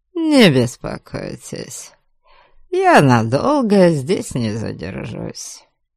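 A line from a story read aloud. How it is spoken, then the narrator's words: Calm, smiling. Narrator (Russian): Спокойно уведомил его Кейман, широко улыбнувшись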